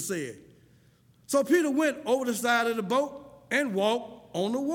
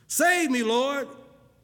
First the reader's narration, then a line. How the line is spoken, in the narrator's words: he shouted